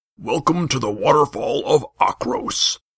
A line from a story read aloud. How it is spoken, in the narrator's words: bellowed a crooked-backed guard